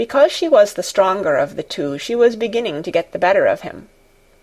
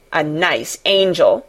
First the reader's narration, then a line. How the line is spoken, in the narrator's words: Colin sneered ferociously